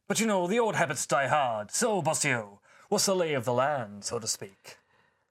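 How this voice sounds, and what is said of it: Atrocious, inconsistent put-on accent. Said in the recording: “stop doing that atrocious accent ... It be getting complaints and frankly, it's never been consistent.”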